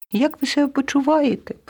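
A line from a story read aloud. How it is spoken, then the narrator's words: Squeaky mouse. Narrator (Ukrainian): пропищала руда миша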